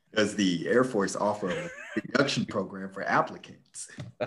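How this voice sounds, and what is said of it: Smooth radio announcer voice. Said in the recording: “put on my radio voice ... Smooth jazz.”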